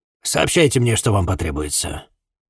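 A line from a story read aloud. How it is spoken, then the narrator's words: Curt, clipped judge. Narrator (Russian): отрывисто бросил судья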